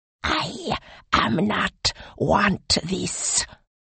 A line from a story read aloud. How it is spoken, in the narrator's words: hissed the snake on Depeju's shoulder